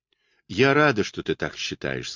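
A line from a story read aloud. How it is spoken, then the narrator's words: Plain. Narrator (Russian): сказала она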